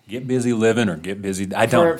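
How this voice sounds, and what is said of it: Imitates another person's voice. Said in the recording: “I was going to do a Morgan Freeman now. Would you like me to do my Morgan Freeman? ... if you're going to do a signature voice, I'm glad you picked Morgan Freeman”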